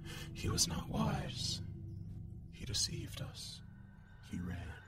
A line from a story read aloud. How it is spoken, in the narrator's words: whispering